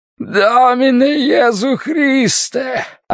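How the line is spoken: Yelling. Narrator (Russian): орал

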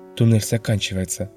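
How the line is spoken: Whisper. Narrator (Russian): прошептал Элрик

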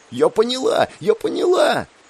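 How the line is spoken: Young girl shouting. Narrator (Russian): Снова закричала юная графиня

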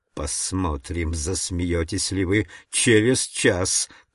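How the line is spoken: Hissing. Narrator (Russian): прошипел он мне

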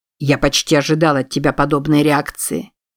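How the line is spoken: Cold, measured. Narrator (Russian): холодно и размеренно продолжал Стаут

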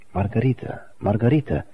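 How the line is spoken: Tearful soft whisper. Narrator (Russian): тихо шептала Мария, обливая ее слезами

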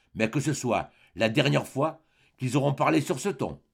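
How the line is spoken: Shaken voice. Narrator (French): dit-elle, d'une voix altérée

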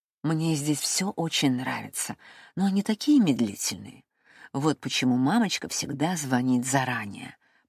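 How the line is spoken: Whisper. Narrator (Russian): прошептала

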